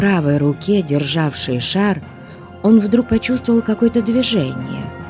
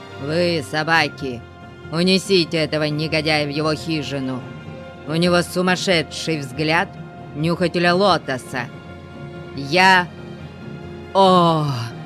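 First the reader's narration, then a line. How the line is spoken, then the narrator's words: Growling. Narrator (Russian): Яр-Афзал прорычал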